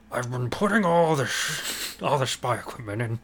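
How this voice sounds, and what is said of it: Bad impression of another person's voice. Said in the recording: “he is Richard Nixon ... bad impression of Billy West doing Richard Nixon”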